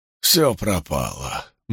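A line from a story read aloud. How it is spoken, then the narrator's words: Gloomy. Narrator (Russian): мрачно молвил Вудворд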